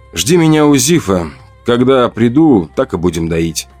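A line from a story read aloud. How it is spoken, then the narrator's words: Calm, detached. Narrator (Russian): ответил я спокойно, даже отчужденно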